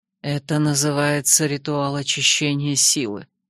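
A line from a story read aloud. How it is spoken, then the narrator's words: Quiet whisper. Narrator (Russian): пояснил Ренар тихим шепотом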